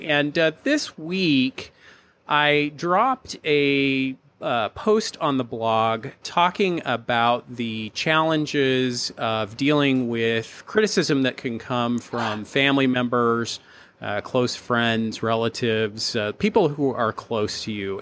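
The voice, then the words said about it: Slightly congested, rough voice. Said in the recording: “I came down with a head cold last week... Excuse my voice a little bit. I'm still recovering from that”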